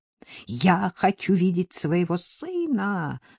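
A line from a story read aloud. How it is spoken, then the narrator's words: Shouting. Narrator (Russian): закричала Вербена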